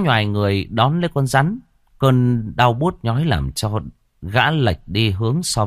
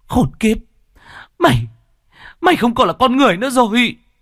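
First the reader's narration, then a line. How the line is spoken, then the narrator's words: Frenzied, trembling woman. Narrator (Vietnamese): Ả đàn bà run rẩy vì kích động, càng lúc càng trở nên điên dại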